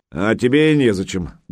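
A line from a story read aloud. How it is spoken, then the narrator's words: Rude curt coach. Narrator (Russian): грубо отрезал новый Санькин тренер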